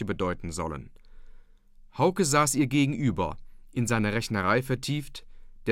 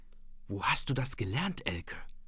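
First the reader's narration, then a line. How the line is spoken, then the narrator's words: Whispered across table. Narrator (German): flüsterte er über den Tisch herüber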